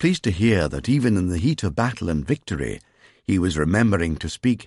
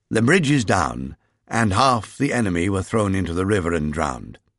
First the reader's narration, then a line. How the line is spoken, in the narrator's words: told him curtly